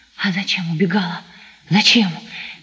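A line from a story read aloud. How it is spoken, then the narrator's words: Hot incoherent whisper. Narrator (Russian): горячим обжигающим шепотом бессвязно твердил Сашка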